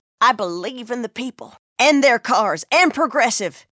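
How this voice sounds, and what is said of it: Impression of a politician. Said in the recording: “my impression of a politician”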